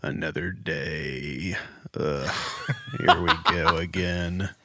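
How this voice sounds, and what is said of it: Creaky vocal fry voice. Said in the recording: “It's a beautiful choir of vocal fry.”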